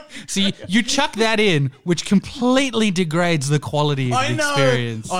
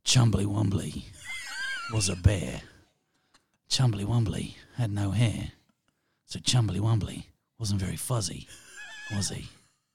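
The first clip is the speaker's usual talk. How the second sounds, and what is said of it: Jason Statham impression. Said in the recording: “can you do your Jason Statham for me again? ... this is my impression of Jason Statham reading a kid's book”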